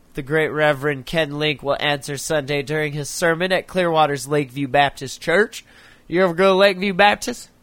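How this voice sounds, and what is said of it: Put-on Floridian Southern accent. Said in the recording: “You like my Floridian accent? ... Florida people don't talk like that.”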